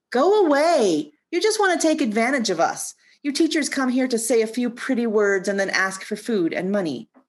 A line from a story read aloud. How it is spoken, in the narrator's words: Impatient with the bulging crowd of monks and villagers, he shouted at the Buddha